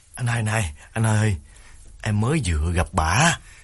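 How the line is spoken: Tearful, whimpering. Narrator (Vietnamese): Đào mếu máo bảo đàn anh

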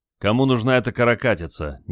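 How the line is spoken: Displeased grumbling. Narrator (Russian): недовольно проворчал моряк

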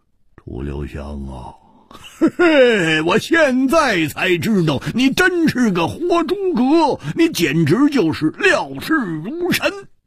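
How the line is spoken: Wry, bitter laugh. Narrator (Chinese): 胡铁花 苦笑着说

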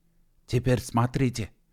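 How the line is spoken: Male whisper. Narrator (Russian): прошептал Гедеван

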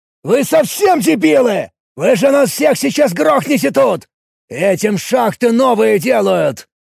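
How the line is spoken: Barked. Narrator (Russian): Рявкнул

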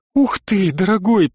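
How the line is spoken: Squeak. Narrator (Russian): пискнула Грейс

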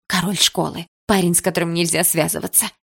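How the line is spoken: Excited whisper. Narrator (Russian): прошептала Дилара с непонятным мне восторгом

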